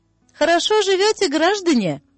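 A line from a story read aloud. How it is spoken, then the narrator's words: Loud and cheerful. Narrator (Russian): сказал громко и весело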